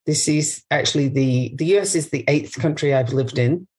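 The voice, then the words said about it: Non-American foreign accent. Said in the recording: “I'm not from here, as you can tell from my accent.”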